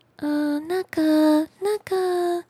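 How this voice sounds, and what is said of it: Very small, quiet voice. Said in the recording (Chinese): “用很小的声音说 ... 小小的声音”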